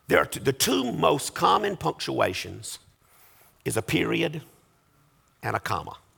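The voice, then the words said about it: Strained, failing voice. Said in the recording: “That's probably all my voice is going to let me do this morning anyway.”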